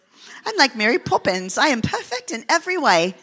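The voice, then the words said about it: Put-on British accent, Mary Poppins. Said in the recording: “it sounds better when you say it with a British accent.”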